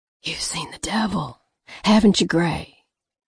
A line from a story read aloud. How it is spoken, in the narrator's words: He whispered